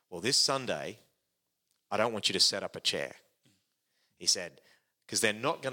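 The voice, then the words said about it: Put-on American accent. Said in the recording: “now I'm going to put on his voice ... American accent. American style. accent. ... is American accent.”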